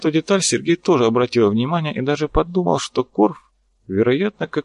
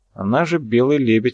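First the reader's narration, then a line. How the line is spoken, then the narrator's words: Skeptical snort. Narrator (Russian): хмыкнул Михаил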